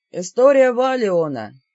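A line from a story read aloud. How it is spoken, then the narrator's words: Creaky explaining voice. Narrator (Russian): скрипучим голосом пояснил мастер Рейш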